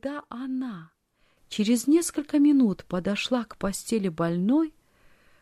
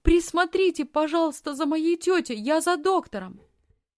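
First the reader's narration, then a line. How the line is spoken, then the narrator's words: Shouted. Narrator (Russian): она крикнула фрау Зайлер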